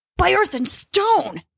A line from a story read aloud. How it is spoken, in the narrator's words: he yelled, struggling to be heard over the wind